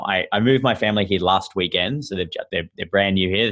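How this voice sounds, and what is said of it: Australian accent. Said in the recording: “my sort of funny accent that I'm Australian”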